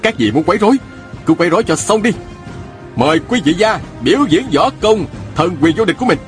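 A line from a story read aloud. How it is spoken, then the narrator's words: Loud call. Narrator (Vietnamese): la lên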